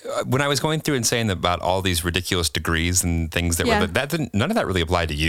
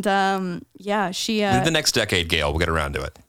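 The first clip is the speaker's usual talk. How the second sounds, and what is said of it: Sarcastic tone. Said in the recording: “that was sarcasm.”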